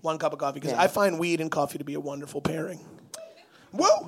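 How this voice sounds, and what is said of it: Strained, worn-out voice. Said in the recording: “I can't make that noise. My voice is dead.”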